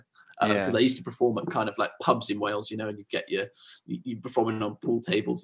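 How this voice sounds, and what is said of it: Slight Welsh accent. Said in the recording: “I am starting to hear a bit of a Welsh twang in your accent”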